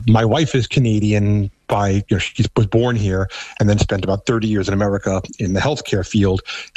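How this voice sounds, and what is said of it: Thick New York accent. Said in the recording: “I still have a very thick New York accent”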